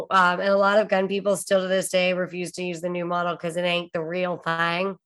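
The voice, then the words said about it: Country twang accent. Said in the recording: “That was an excellent accent. Excellent twang.”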